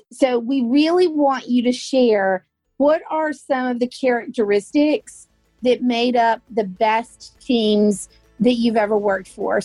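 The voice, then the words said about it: Drawn-out Southern US accent. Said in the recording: “my Southern accent, I put about 6 syllables too many in every single word”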